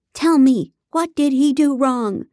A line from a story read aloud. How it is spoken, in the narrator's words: she yelled